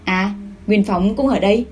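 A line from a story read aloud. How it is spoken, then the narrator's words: Cool, faint laugh. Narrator (Vietnamese): Chu Tư Việt cười nhạt nói với cô ấy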